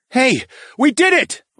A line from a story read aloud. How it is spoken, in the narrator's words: I yelled